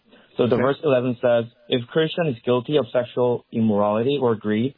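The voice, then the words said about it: Korean-accented English. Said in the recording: “I'm Korean, so I have a Korean accent.”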